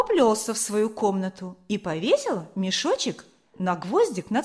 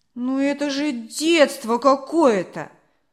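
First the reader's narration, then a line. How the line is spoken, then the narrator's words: Displeased grumble. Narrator (Russian): недовольно пробурчал Максимка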